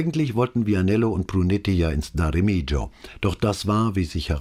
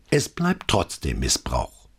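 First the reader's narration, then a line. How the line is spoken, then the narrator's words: Grumbling. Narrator (German): brummte er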